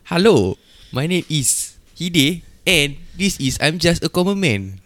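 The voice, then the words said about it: Put-on accent. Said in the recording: “Do you like my accent? ... I go back to my normal voice”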